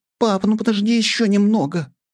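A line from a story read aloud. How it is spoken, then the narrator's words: Pleading girl. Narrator (Russian): взмолилась его дочь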